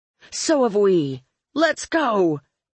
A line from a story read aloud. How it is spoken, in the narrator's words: Purple Hair yelled